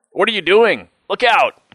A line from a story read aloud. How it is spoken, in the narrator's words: cried my father